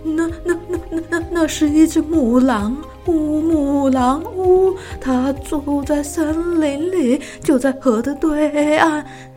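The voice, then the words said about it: Trembling, stammering old woman's voice. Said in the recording (Chinese): “最年长的妇人用颤抖的声音说”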